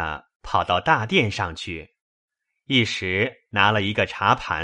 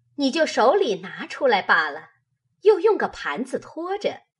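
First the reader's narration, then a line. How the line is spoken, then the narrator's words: Laughing. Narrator (Chinese): 凤姐笑道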